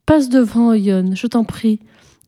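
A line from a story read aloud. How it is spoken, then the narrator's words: Timid voice. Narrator (French): lui dit, d'une voix timide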